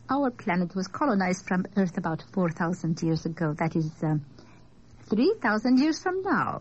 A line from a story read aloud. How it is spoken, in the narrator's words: she laughed most wondrously